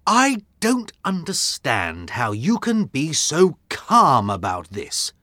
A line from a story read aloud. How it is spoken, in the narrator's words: said Watson crossly